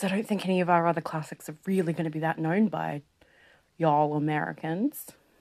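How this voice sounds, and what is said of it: Poor put-on American accent. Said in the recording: “That wasn't a very good American accent by me.”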